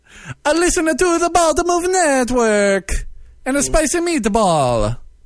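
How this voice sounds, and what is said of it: Put-on Italian accent. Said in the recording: “your accents are hilarious ... Okay, how about Italian?”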